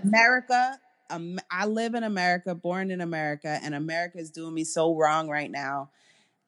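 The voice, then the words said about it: New York American accent. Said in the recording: “my voice is so New York, so America right now”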